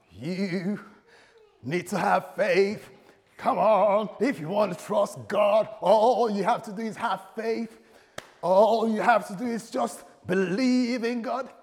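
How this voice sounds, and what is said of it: Put-on American accent. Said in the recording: “this is my American accent ... I do my American accent”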